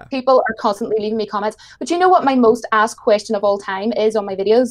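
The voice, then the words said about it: Irish accent. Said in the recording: “I heard the accent, and immediately I was like, oh, she's Irish”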